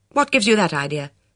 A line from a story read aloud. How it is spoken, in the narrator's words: said sharply